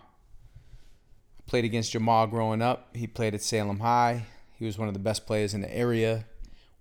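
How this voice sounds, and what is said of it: Boston accent. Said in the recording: “he noticed my accent and asked me where I was from, and I said, Boston.”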